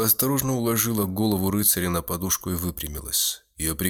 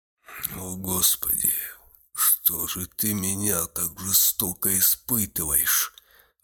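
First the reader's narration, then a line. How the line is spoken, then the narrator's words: Muttered. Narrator (Russian): Оставшись один, пробормотал Гудо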